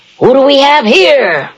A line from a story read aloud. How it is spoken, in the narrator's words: the jailer called out